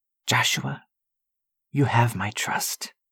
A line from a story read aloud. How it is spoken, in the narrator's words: he whispered out into the darkening sky